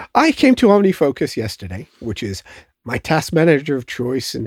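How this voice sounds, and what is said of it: Usual voice. Nothing is said of it.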